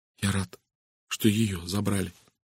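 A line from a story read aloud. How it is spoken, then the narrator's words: Barely audible. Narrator (Russian): едва слышно произнес он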